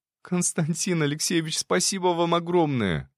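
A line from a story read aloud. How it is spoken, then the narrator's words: Exclaimed. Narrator (Russian): воскликнула Катя Енина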